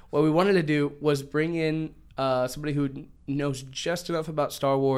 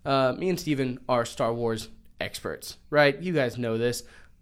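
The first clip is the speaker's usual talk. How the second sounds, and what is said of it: Sarcastic delivery. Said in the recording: “That was sarcasm”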